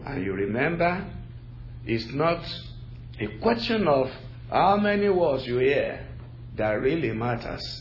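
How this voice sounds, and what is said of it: Nigerian English accent, slow deliberate speech. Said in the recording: “I do not speak American English... Nigeria is a colony of the British... they gave us their own brand of English language... my native accent. It colors my diction... I will be very slow, deliberately, and be distinct”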